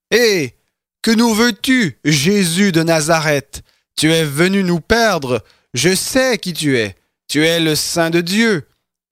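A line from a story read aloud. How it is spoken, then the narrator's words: Possessed man crying loudly. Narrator (French): un homme qui avait un esprit de démon impur et qui s'écria d'une voix forte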